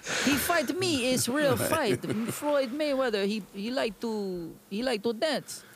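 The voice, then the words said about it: Put-on foreign accent, broken English. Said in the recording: “I don't know what accent I'm doing, but it's not Russian.”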